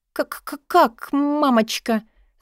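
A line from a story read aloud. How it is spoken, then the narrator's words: Stammering question. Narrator (Russian): заикаясь, спросила я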